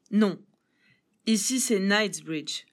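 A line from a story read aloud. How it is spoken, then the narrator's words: Plain. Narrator (French): répondit-elle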